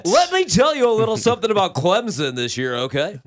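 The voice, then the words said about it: Exaggerated radio announcer voice. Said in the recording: “radio voice guy”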